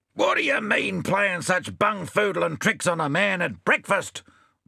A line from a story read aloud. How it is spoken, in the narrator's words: roared Bill